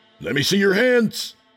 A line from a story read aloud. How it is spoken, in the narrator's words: the other officer shouted